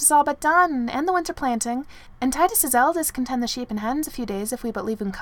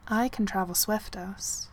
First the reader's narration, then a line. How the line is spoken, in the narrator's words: said Eska quietly